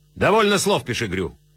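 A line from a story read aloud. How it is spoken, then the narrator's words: Sharp interruption. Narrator (Russian): резко вмешался Кадудаль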